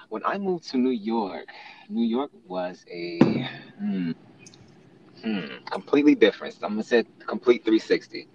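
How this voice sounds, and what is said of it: Southern American accent. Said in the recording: “You got people who love the accent. I was a country bumpkin ... I was a southern bumpkin ... they love the way I talk.”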